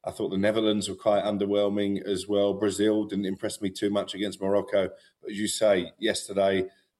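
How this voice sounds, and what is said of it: Foreign, non-American accent. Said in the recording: “you are not from this country, as noted by the accent.”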